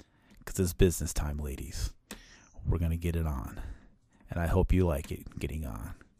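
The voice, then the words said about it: Low, gravelly, sexy voice. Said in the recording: “I'm gonna do my low grovelly sexy voice ... Gravelly.”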